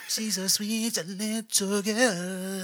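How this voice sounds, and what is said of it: Imitates another person's singing voice. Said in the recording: “That was my impression of Bobby Brown.”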